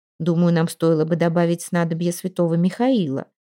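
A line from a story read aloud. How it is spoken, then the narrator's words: Calm. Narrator (Russian): спокойно сказала она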